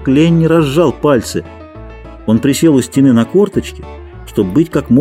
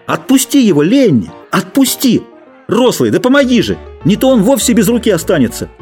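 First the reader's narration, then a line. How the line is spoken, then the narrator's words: Continued shouting. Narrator (Russian): Джордж все кричал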